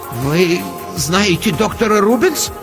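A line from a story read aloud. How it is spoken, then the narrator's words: Uncertain, smiling. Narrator (Russian): Неуверенно улыбнулся Ирварос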